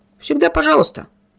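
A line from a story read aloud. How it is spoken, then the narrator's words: Offended tone. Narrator (Russian): обиженным тоном отозвался Медина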